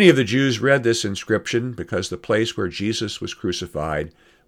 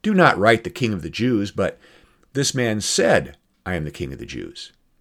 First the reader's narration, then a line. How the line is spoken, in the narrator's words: Pilate answered